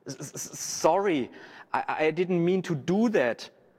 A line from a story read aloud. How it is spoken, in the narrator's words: the child stammered